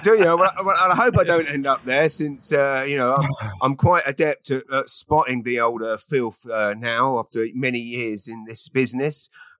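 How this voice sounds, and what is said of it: Put-on East London Cockney accent. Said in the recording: “my accent's changed from quite posh English when you landed to now sounding a bit East London Cockney wide boy”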